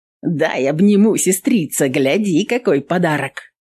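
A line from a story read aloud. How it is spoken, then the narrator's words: Laughing. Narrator (Russian): Нютка смеялась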